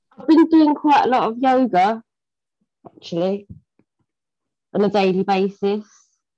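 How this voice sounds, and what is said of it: Hard-to-understand accent. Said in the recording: “I get thrown a bit by the accent ... I just sometimes I can't understand what words are being said.”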